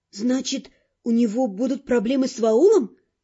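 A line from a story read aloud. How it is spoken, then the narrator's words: Uncertain. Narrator (Russian): неуверенно заключила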